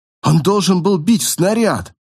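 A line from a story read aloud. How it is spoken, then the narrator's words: Exclaimed. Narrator (Russian): воскликнул я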